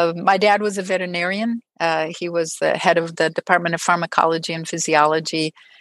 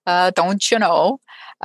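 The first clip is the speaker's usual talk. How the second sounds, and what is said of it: Exaggerated Minnesota accent. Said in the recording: “every once in a while you'll hear the Minnesota accent starting to come out”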